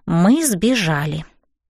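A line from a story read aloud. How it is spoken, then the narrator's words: Whispered. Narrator (Russian): прошептала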